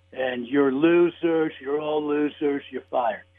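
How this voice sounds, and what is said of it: Raspy voice with slight New York accent. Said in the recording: “there's a slight New York accent when he speaks, but it's kind of raspy”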